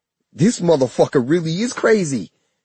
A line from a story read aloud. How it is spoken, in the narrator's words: he shouted